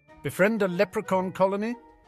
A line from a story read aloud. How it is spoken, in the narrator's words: Harry laughed